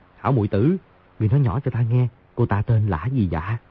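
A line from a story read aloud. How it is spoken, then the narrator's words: Laughing, then low voice. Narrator (Vietnamese): Di Tiểu Bảo hô hô cười rộ, hạ giọng nói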